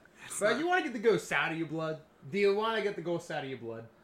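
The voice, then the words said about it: Switches into a put-on accent. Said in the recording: “I don't know why you changed that accent”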